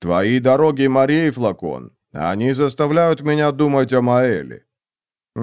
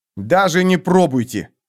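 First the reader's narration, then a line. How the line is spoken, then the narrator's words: Barking snap. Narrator (Russian): рявкнул Флакон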